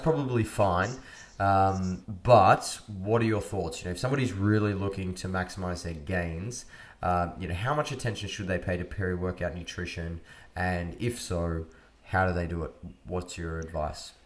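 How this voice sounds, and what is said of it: Australian accent. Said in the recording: “boring Australian accent”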